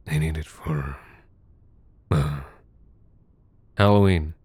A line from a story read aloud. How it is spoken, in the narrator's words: said, my voice rasping